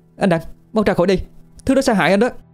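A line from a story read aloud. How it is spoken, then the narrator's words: Shouting. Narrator (Vietnamese): cô la lên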